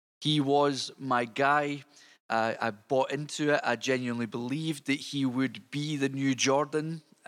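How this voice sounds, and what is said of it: Scottish accent. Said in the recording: “you'll tell from my accent that I'm not from Detroit. I am actually Scottish.”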